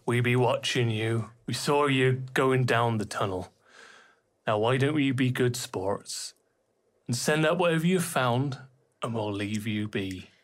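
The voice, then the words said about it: Character voice in regional dialect. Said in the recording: “You recognise this voice as being from a dialect from your neighbouring town of Lumbergost.”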